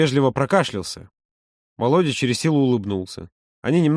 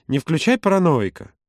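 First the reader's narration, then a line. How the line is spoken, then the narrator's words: Almost cheerful. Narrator (Russian): он добавил почти весело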